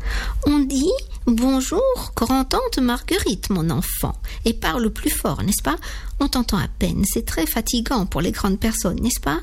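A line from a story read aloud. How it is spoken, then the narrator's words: Soft voice. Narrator (French): Tout cela est dit d'une voix douce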